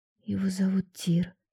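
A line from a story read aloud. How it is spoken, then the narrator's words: Quiet. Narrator (Russian): сказала я тихо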